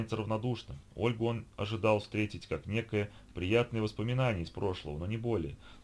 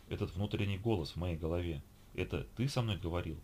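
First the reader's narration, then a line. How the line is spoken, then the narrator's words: Plain question. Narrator (Russian): спросила она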